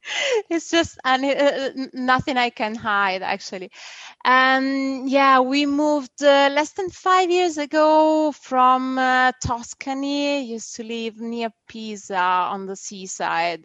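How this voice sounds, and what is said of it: Strong Italian accent. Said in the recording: “I understand you're from Italy ... I apologize for the accent. I know it's strong ... It's a very lovely accent.”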